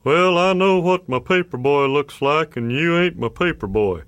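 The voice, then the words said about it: Put-on Texas accent. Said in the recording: “every middle-aged authority figure had a Texas accent”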